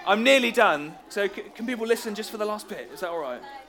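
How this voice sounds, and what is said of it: Loud, slightly hoarse voice. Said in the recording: “I'm louder, but I'm going a bit hoarse”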